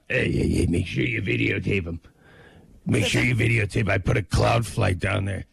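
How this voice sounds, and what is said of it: Imitates another person's voice, badly. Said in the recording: “That's a terrible impression of me. ... I know, it's a terrible impression. ... Awful.”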